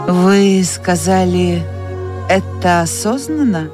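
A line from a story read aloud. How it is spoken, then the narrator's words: Asked very calmly. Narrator (Russian): спросил он очень спокойно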